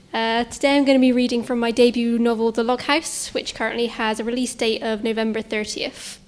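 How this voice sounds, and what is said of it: Local regional accent. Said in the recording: “I'm a local writer, as you can probably tell from my accent.”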